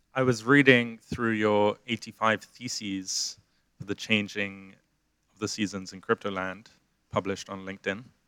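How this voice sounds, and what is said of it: Speaking very slowly. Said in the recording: “why are you saying it so slowly?”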